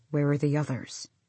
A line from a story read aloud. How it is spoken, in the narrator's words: Kaol said softly